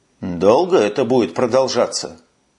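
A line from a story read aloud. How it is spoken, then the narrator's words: Grumbling. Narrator (Russian): проворчал Росс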